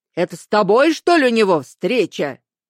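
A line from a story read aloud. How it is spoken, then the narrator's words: Menacing question. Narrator (Russian): грозно спросил Алексеевич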